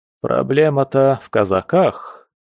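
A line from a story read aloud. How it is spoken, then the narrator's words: Heavy sigh. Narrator (Russian): тяжело вздохнул генерал и поделился наблюдением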